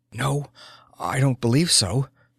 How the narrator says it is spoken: she breathed

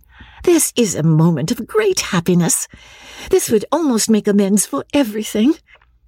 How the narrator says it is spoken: she cried

